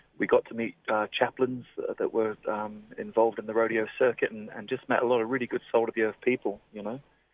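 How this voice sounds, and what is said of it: English accent. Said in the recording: “you've got an English accent there”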